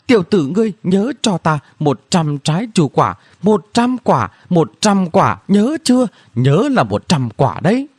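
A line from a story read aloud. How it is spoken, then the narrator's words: Cunning shout. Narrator (Vietnamese): Từ Kim Thần Long giàn xảo kêu lên mà nói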